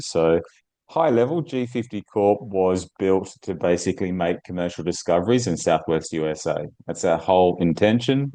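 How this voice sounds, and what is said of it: Australian accent. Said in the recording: “As you can tell from my accent, I'm Sydney based. I'm in Australia.”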